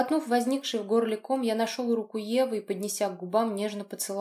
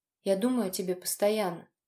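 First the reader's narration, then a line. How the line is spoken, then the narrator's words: Soft. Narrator (Russian): мягко проговорил я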